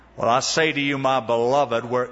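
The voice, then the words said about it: Imitated deep southern accent. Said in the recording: “with a deep southern accent”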